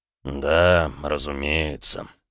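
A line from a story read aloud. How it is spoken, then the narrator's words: Through gritted teeth. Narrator (Russian): процедил Эдуард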